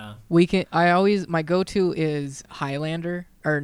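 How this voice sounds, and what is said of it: Usual voice. Nothing is said of it.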